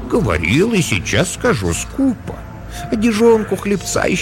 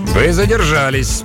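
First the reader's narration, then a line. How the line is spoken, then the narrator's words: Grumpy announcement. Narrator (Russian): сварливым тоном объявил морец Ван Хемиард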